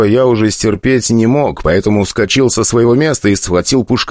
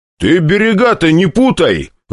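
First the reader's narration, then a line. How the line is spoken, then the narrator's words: Barked. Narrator (Russian): Рявкнул я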